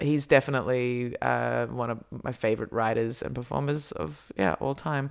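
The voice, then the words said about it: Strong Australian accent. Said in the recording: “my Australian accent comes out a lot stronger... I speak like an Aussie... Your accent is coming through.”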